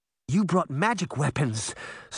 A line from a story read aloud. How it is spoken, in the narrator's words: Sabrina exclaimed, overjoyed